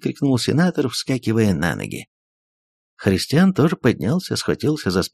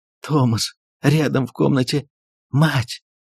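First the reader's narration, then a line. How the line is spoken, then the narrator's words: Pleading whisper. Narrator (Russian): госпожа Перманедер умоляющим голосом прошептала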